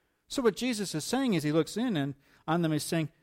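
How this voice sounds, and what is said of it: Usual voice. Nothing is said of it.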